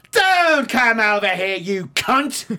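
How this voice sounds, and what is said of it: Screamed put-on Cockney accent. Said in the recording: “when you scream it in a Cockney accent”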